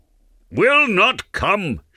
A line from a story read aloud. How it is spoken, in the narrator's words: shouted Umslopogaas